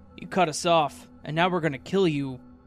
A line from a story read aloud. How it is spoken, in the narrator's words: yelled